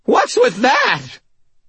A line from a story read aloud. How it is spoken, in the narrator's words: Butters screamed, his voice high and frightened